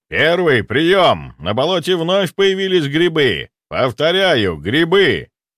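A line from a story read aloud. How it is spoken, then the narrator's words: Loud general into transmitter. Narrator (Russian): Громко проговорил генерал в аппарат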